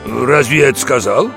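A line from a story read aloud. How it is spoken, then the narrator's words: Snorting mare. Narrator (Russian): Серая кобыла фыркнула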